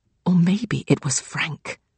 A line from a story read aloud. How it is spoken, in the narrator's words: Connor says in a hushed voice